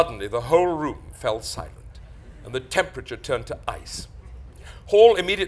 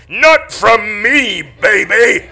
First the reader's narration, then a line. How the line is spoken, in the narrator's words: Paul roared